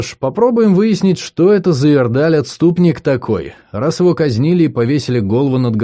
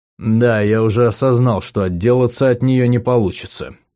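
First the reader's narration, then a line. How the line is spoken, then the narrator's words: Mumble. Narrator (Russian): пробормотал я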